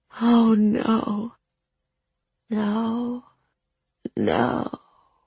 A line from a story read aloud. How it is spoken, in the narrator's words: echoed the mirror girl mournfully, her voice faint and fractured